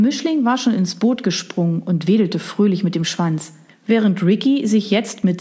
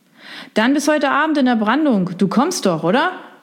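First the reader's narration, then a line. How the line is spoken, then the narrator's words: Loud call over surf. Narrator (German): rief er ihm laut durch die Brandung zu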